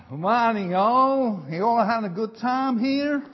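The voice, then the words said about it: Poor put-on American accent. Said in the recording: “That's a lousy accent, isn't it?”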